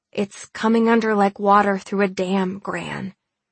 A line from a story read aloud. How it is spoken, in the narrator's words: I said through gritted teeth